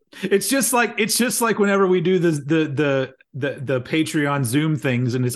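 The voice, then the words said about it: Plain American accent. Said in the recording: “I'm the one American, and everyone has the varying different UK accents ... I'm boring over here ... the white bread of accents”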